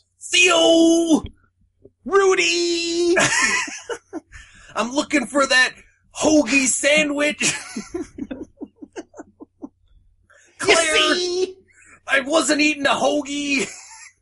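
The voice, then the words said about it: Bad Bill Cosby impression. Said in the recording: “the worst Cosby impression ... You want to have a Cosby off”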